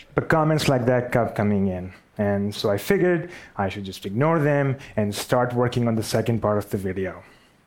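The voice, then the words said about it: Pakistani-accented English. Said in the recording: “I have a Pakistani accent ... I clearly have a Pakistani accent”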